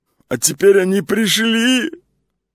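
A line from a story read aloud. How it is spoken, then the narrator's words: Whining head. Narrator (Russian): заскулила голова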